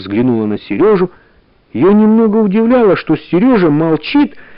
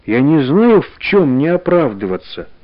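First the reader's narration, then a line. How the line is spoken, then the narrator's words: Plain. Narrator (Russian): сказала Таня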